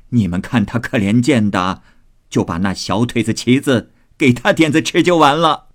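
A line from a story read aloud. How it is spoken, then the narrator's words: Laughing old woman. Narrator (Chinese): 贾母笑道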